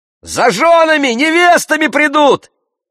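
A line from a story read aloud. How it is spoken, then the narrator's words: Shout. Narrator (Russian): крикнул другой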